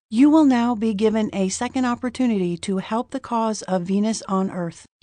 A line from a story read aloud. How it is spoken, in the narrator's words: he said in his expressionless voice